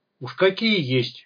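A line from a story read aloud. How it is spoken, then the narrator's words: Smirking grunt. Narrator (Russian): хмыкнул паня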